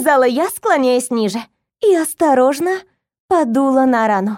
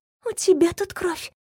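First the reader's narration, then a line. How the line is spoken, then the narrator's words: Whispered. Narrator (Russian): почему-то шепотом сказала я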